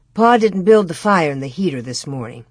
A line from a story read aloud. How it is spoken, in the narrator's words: Ma answered